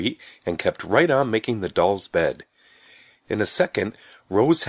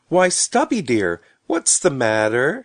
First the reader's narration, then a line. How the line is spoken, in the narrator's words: called sweetly